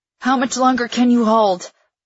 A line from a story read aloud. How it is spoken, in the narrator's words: I ask, gasping out the words